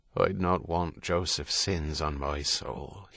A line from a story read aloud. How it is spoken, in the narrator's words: muttered